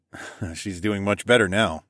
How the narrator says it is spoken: smirked

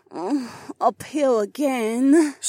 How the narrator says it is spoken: Sienna groaned

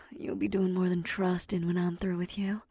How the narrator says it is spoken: Batari moaned

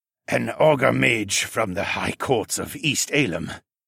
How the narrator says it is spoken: Siskern added with his raspy voice

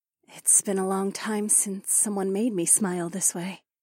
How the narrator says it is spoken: Nokomis replied in a soft voice

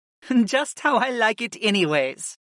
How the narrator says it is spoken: Syra chuckled

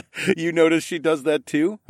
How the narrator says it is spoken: laughed

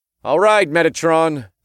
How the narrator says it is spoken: I called out

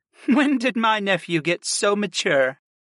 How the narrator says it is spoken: Kristen chuckled

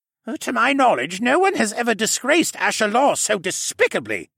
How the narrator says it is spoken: Jenner spat

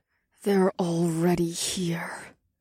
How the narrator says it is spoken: Ash murmured under her breath

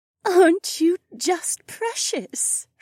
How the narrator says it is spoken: Shay cooed

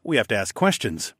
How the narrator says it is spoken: I chuckled

